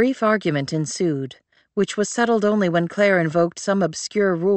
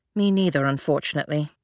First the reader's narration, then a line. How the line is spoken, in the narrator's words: Claire said with a sigh